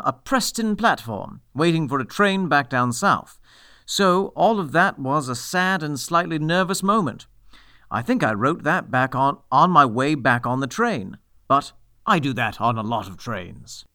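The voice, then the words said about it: Drifting, unstable imitated accent. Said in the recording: “That accent was a mind journey. ... It was a drifting accent. ... That one was a little less stable than the last ... we heard. ... there were one or two points where you sounded like a 20s like newsman.”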